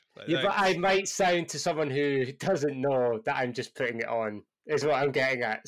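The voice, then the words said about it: Scottish accent. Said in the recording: “my Scottish accent is all over the place sometimes ... You can definitely tell you are Scottish”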